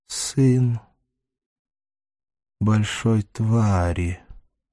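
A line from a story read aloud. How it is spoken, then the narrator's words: Slow, muffled, bitter. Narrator (Russian): задумчиво протянул Даймон, и голос его был глух и полон горечи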